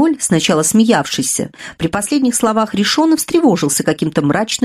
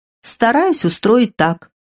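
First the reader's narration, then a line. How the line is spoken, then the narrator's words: Calm answer. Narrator (Russian): отвечал Ришон спокойно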